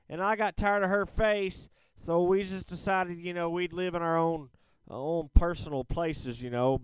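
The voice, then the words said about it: Put-on Southern accent. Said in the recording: “I don't know why I'm kicking in a Southern accent there”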